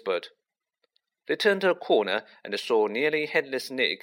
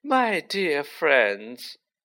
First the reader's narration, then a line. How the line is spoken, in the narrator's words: he said mournfully